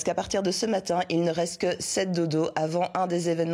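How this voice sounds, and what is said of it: Usual voice. Nothing is said of it.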